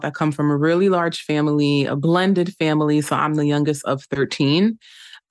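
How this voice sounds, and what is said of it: Slight New York accent. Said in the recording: “You have a great New York accent. ... You can hear it like a little bit.”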